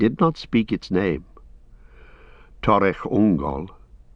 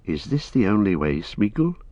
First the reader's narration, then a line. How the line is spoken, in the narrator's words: said Frodo